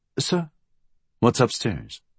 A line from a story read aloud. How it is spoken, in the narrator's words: Blackwell had come up behind him and said softly